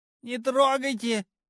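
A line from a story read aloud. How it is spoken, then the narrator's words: Shrill, womanish shriek. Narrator (Russian): По бабье завизжал Демиург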